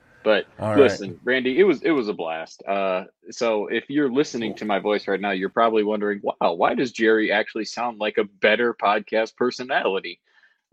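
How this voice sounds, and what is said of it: Hoarse, strained lost voice. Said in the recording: “my squeaky voice is gone because I actually lost my voice at the game screaming so much”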